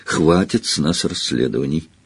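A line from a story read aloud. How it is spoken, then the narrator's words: Quiet but weighty. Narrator (Russian): Тихо, но весомо произнес Гарри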